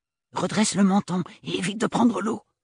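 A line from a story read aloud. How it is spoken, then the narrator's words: Whispering. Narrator (French): lui souffla Agathe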